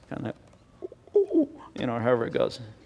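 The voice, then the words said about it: Imitates a mourning dove's coo. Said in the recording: “my mourning dove impersonation ... That's as good as it gets there”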